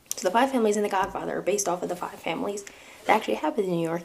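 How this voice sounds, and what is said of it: New York accent. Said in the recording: “now is when you really get to hear my New York accent come out”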